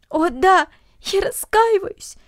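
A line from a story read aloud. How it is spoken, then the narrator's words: Sobbing. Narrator (Russian): всхлипывала Люся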